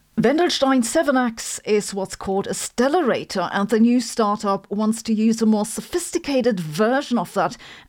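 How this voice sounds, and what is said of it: German accent. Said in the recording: “my German accent”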